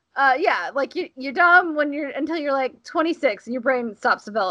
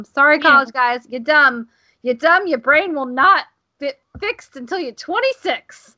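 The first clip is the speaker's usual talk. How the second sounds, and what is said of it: Put-on accent. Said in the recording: “I don't know why I'm doing this accent.”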